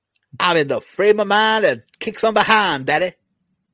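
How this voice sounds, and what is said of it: Imitates another person's voice, poorly. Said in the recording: “It's a piss poor impersonation”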